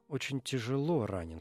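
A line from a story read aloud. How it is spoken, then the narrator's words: Quiet. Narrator (Russian): сказал он тихо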